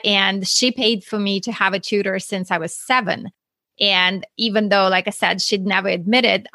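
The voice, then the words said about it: Russian accent. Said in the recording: “if you hear my accent, I'm not from Texas. I'm actually from Russia.”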